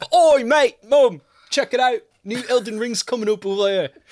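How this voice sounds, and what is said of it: Exaggerated bad English accent. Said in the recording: “talking like an awful Englishman”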